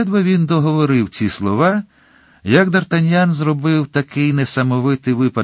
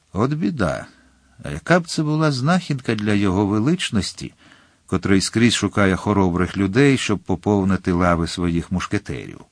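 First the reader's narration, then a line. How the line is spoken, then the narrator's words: Quiet, to himself. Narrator (Ukrainian): тихо, наче звертаючись до самого себе, додав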